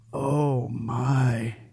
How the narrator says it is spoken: he muttered under his breath

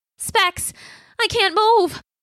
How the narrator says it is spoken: his voice panicky

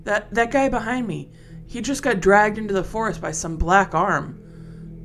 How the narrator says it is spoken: I yelled

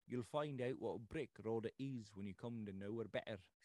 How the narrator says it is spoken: said my husband

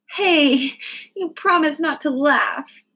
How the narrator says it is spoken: laughed

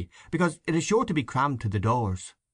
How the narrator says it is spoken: Power earnestly

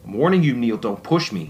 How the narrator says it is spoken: Sean spat

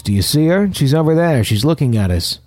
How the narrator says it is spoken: Matt yelled

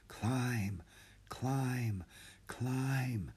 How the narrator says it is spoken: whispered from her spot in the ceiling

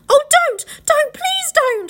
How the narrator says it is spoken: shouted Edmund

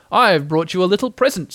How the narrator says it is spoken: said Pooh excitedly

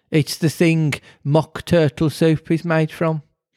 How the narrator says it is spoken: said the Queen

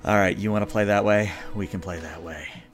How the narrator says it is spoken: Ying pants and goes

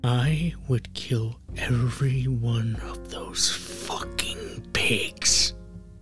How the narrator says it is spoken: he whispers in my ear

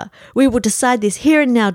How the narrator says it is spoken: Dupre yelled

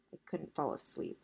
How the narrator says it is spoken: she mumbled, to herself mostly

